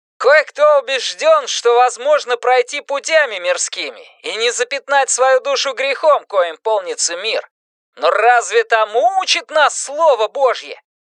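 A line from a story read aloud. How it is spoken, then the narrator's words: Loud, off-microphone. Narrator (Russian): Вдали от микрофона, но все равно громко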